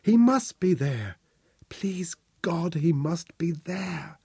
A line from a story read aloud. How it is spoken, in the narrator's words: she whispered, her hatred through cracked, dry lips